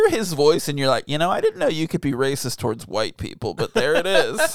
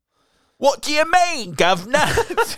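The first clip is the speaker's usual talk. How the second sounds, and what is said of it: Exaggerated fake British accent. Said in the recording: “Yearning to have good British accents... I love his British accent.”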